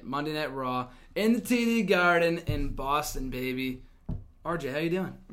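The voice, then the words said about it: Slightly hoarse, worn-out voice. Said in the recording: “my voice is still a little shot from last night”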